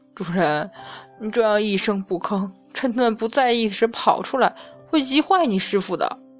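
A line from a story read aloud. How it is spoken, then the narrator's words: Helpless sigh. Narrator (Chinese): 无奈叹息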